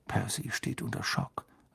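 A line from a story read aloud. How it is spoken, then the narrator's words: Quiet. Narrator (German): sagte George leise zu Harry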